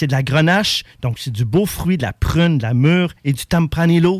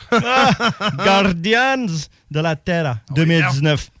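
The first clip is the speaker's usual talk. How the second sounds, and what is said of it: Put-on fancy Sunday-best accent. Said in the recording (French): “Sors ton accent du ... dimanche”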